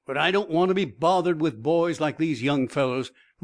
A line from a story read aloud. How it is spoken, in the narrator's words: retorted angrily